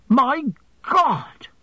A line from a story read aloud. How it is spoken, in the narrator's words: he suddenly exclaimed